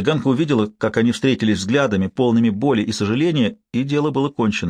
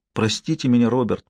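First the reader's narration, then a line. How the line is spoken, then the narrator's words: Whispered. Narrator (Russian): прошептала она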